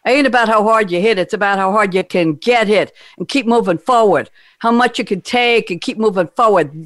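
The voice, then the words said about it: Rocky Balboa impression, spot-on accent. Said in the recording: “was so perfect and spot on accent and everything ... Rocky”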